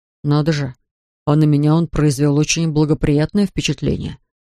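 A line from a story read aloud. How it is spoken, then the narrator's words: Timid objection. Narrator (Russian): робко возразил Пиппин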